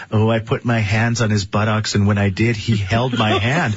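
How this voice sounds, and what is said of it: Creepy girly voice. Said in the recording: “I love your creepy girl voice.”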